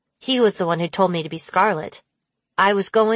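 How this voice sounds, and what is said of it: Usual voice. Nothing is said of it.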